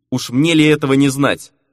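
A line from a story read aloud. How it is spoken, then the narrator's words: Snort. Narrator (Russian): хмыкнул Фернан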